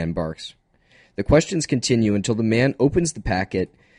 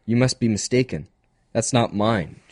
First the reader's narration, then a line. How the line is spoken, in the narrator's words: she says, smiling nervously